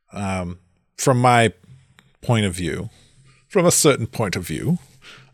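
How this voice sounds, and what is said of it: Bad Obi-Wan Kenobi voice impression. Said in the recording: “that's a horrible Obi-Wan accent. ... Yeah, it was really bad.”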